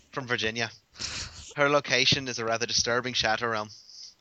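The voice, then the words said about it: Put-on Irish accent. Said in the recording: “I don't know why I'm doing it with an Irish accent still.”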